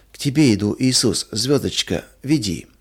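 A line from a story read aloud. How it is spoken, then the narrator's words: Incoherent sleepy whisper. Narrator (Russian): Маруся во сне и бессвязно шептала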